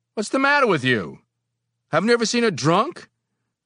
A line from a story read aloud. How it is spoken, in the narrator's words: Suddenly, I yelled